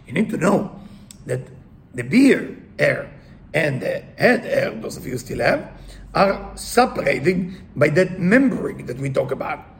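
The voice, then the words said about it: Speaks English with an accent. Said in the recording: “sorry with my accent, I have to explain everything”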